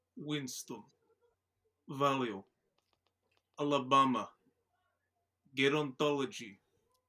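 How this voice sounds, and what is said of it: Put-on Russian accent. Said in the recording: “a man with a Russian accent”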